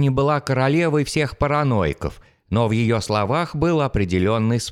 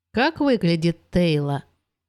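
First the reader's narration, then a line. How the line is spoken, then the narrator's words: Sleepy question. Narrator (Russian): Сонно спросила она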